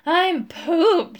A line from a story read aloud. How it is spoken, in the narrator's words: he panted